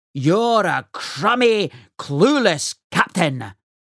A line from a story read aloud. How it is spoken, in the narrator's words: barked Fearsome Fergus